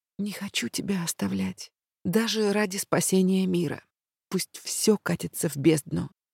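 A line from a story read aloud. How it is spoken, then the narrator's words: Overwhelmed whisper. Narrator (Russian): я не выдержала и прошептала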